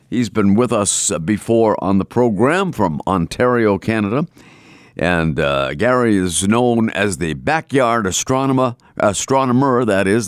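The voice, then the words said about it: Boston accent. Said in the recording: “There's my Boston accent coming out.”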